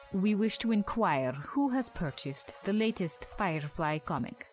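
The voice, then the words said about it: Speaks with a foreign accent. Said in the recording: “and that one has an accent.”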